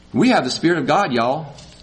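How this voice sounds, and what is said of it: Brief put-on Southern accent. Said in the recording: “Little Southern.”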